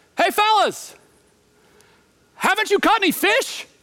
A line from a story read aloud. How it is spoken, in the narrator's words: Jesus yells